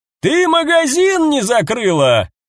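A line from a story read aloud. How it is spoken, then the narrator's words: Shouting. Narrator (Russian): крикнул кто-то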